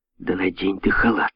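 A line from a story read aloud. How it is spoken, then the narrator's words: Hissed. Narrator (Russian): прошипела Теа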